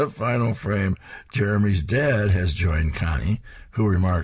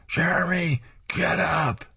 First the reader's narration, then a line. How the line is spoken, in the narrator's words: she's holding a huge power bullhorn as she shouts